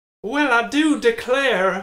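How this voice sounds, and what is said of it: Put-on Southern drawl. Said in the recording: “A bit of a southern drawl there.”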